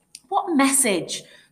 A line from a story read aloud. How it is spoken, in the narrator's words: Scott shouted through the darkened glass